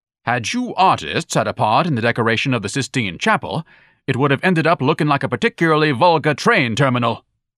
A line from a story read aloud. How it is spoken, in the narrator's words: Ignatius snorted